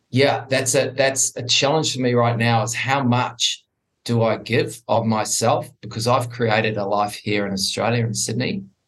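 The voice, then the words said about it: New Zealand accent. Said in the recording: “the international accent. I am originally from New Zealand.”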